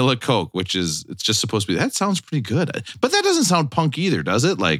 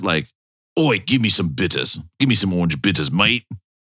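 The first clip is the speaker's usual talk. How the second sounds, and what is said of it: Put-on British accent. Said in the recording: “I was doing a perfect British accent”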